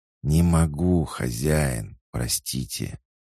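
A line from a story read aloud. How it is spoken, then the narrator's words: Regretful hiss. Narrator (Russian): прошипел с сожалением в голосе змей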